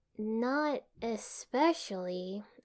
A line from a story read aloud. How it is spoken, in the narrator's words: said slowly